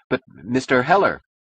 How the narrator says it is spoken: Snight stammered

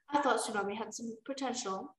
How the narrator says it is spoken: Morrisier muttered

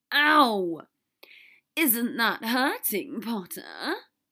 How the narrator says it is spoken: Draco hissed

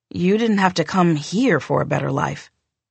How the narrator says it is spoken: I said, yawning

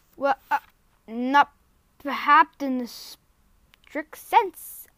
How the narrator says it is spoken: stammered Uncle Andrew

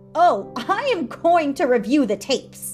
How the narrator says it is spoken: In a shrill voice she didn't recognize, she said

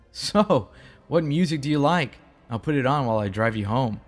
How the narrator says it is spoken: laughed at me, that normal laugh, and said

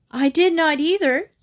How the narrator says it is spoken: Sylvia shrieked

